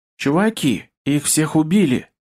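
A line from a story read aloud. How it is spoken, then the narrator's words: Hoarse rasp. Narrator (Russian): прохрипела Зики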